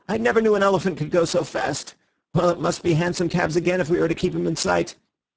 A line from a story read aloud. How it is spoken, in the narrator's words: cried Bull